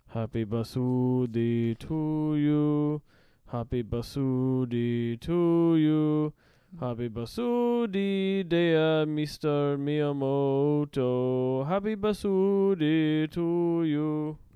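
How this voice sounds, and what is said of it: Put-on Japanese accent, singing. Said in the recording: “Let's do it in a not offensive accent.”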